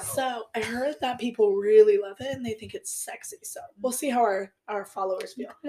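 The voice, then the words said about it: Croaky voice with vocal fry. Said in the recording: “Please excuse my voice... I am getting over a cold... I'm trying out Vocal Fry.”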